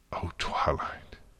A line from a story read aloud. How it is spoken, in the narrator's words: Celestia whispered